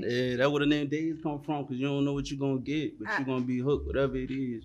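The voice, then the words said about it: New Orleans accent. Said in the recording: “all the way from New Orleans, Louisiana ... That's the accent.”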